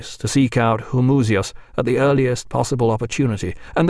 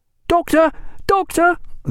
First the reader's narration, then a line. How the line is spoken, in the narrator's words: they cried, hallooing far behind